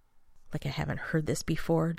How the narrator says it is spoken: John says under his breath

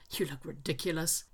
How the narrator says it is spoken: he mutters

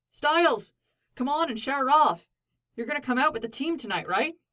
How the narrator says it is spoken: Scott called out from the edge of the field

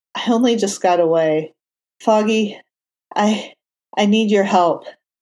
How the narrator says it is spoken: Matt said shakily

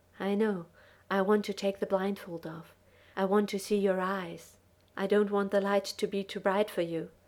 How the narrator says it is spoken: Jack breathed

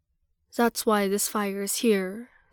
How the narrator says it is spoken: says the wise woman solemnly

